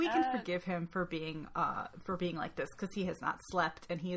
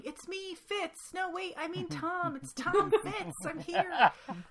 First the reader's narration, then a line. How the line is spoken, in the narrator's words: goes running into camp, covered in snow, yelling